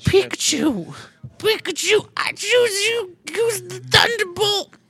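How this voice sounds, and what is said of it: Imitates cartoon character Ash Ketchum. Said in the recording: “Do my boy Ash Ketchum”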